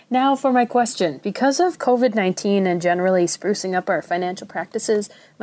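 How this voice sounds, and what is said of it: Minnesota regional accent. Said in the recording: “from the Twin Cities in Minnesota... my accent is weird”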